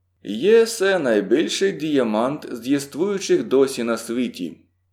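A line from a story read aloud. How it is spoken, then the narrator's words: Calm. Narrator (Ukrainian): сказав спокійно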